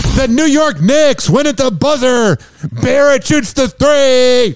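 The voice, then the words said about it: Yelling sportscaster impression of Scott Farrell. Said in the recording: “My neighbors must love my yelling. ... That was also an impersonation of Scott Farrell doing a live show.”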